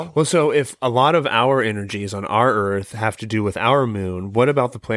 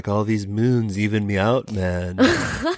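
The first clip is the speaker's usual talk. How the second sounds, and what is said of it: Laid-back stoner Liverpudlian-style accent. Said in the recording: “I like that accent. That was a perfect one... For aliens?... It's like a little bit of a stoner meets the Beatles... Some John Lennon.”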